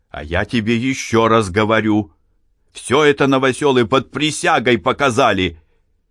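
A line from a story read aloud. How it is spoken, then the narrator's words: Angry, clipped words. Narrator (Russian): сердито проговорил пристав, отчеканивая каждое слово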